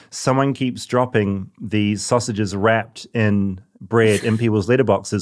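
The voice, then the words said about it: New Zealand accent. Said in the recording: “Oh, it's the accent. ... So I got to learn to enunciate. ... I feel like I've reverted. ... gone back about 1,000 steps in my journey to become American.”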